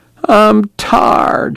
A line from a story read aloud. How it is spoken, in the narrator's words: she whined